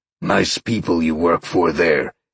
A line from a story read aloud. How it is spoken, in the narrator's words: Sean growled